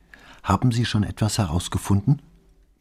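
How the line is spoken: Quiet question. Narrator (German): fragte leise

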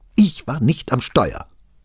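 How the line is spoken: Angry interruption. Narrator (German): sprach Bonaventura wütend dazwischen

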